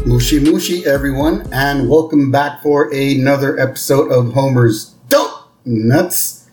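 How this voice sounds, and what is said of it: Slightly hoarse, throaty voice. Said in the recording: “I have a little frog in my throat ... if I clear my throat a little”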